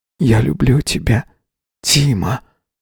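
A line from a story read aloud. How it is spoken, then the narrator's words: Whispered. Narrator (Russian): прошептал Юрка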